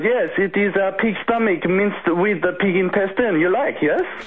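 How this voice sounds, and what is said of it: Bad put-on foreign accent. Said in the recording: “Sorry about the bad accent too, guys ... Welcome to the home of the bad accent”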